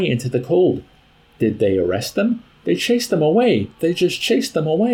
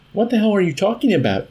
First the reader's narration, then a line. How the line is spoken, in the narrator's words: Ysarion shouted at her in bewildered, furious protest